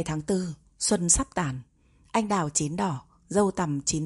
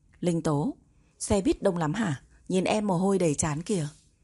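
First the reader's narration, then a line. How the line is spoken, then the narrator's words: Warm smiling voice. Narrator (Vietnamese): Y tá rất thân thiết với Linh Tố, mỉm cười nói với cô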